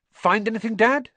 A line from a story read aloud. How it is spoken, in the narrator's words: said Fred eagerly